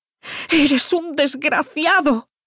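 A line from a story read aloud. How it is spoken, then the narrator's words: Drunken howl. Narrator (Spanish): aulló Irina soltando un pestazo al alcohol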